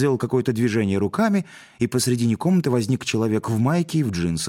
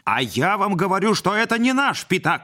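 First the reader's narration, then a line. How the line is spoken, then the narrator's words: Yelling. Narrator (Russian): заорал Модест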